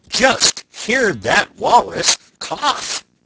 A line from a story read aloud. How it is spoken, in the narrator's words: cried the man in fright